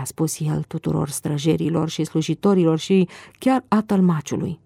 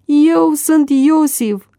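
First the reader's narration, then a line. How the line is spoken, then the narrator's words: Shouting. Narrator (Romanian): a strigat el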